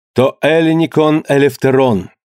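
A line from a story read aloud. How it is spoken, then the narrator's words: Loud. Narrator (Russian): громко произнес Пандион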